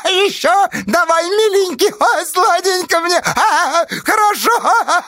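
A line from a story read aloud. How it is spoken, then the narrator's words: Shrieking woman. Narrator (Russian): Визжала черноглазая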